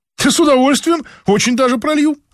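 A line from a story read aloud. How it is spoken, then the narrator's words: Animated. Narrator (Russian): оживилась та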